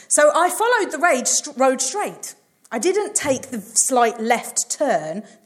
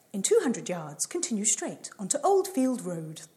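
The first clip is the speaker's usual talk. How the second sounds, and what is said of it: Imitates a sat-nav voice. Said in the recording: “That's my best impression of Google Maps.”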